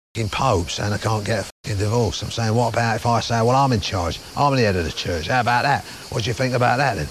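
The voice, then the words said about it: Brash Cockney accent impression. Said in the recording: “Their Ray Winston bit playing Henry VIII. As sort of the Cockney that we expect, the brash Cockney we know and love Ray Winston as... best impression”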